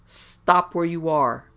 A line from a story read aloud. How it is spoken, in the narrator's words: thundered John Thunstone